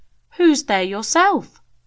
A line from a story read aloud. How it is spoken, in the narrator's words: exclaimed Rosie